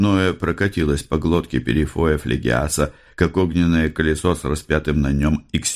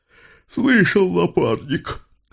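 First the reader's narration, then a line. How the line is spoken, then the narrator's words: Hoarse repetition. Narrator (Russian): севшим голосом повторил он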